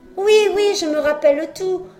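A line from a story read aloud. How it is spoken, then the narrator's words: Exclaim. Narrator (French): s'exclama Pinocchio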